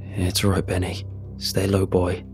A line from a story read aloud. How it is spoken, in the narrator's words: murmured in a wavering voice